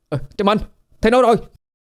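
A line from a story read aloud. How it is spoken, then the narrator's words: Sudden shout. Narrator (Vietnamese): Đột nhiên Ất hét lên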